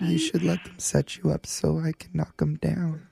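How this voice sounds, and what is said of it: Creepy voice. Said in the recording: “That's just a creepy voice.”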